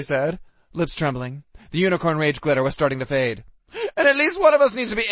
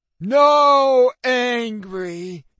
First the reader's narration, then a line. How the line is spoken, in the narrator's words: Tiki wailed